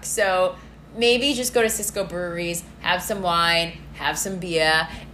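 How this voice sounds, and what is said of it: Put-on Massachusetts accent. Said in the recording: “I did that with like the Massachusetts accent”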